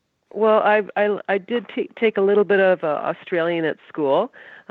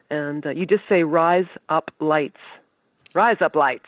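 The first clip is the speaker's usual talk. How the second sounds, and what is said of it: Put-on Australian accent. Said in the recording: “one of the best Canadian impersonations of Australian accent ever ... She's got it.”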